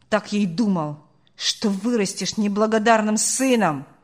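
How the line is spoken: Angry bark. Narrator (Russian): рявкнул он на прощание

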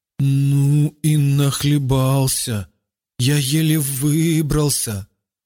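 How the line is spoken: Stammering. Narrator (Russian): Заикаясь, он проговорил

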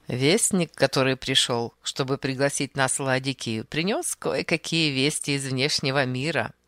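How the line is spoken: Brief laugh while speaking. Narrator (Russian): продолжал Архип, коротко засмеявшись

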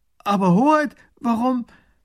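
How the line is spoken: Calling out. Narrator (German): Der erste Minister ruft

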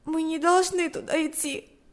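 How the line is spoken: Sobbing. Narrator (Russian): сказала она, всхлипнув

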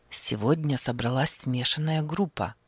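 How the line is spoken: Quiet, not to wake. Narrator (Russian): заговорил он тихо, чтобы не разбудить солдата, который громко храпел

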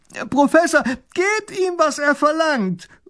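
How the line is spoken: Calling out, young boy. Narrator (German): ruft der kleine Großherzog

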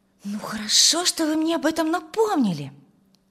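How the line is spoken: Exclaimed. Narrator (Russian): воскликнула Тамара

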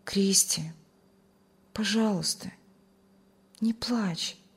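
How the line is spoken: Tender loving. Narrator (Russian): с любовью и заботой ласково сказал

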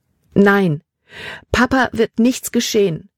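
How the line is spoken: Sobbing. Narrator (German): Libbys Körper wurde von Schluchzern erschüttert

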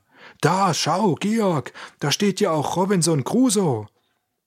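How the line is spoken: Sudden call. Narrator (German): Auf einmal rief er

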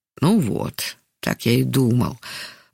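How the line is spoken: Sighing mutter to self. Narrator (Russian): вздохнув, пробормотал про себя Яков Иванович

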